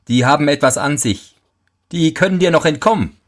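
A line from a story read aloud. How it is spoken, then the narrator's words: Mocking. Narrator (German): sprach der Teufel höhnisch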